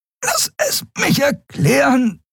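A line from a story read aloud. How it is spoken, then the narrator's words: Panting. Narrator (German): keuchte Andriel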